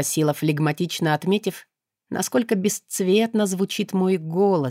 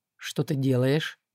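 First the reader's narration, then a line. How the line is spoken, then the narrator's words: Calm question. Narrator (Russian): спокойно поинтересовался он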